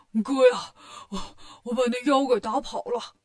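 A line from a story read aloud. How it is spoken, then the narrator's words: Breathless. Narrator (Chinese): 八戒气喘吁吁的，说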